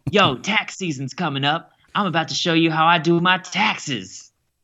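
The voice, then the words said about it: Imitates another person's voice. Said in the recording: “I do an impersonation of Justin Timberlake”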